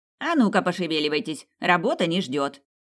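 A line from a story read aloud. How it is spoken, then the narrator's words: Sharp scolding shout. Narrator (Russian): главлекарка Эка прикрикнула на подчиненных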